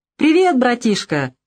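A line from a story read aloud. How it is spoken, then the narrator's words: Cheerful. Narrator (Russian): весело проговорил он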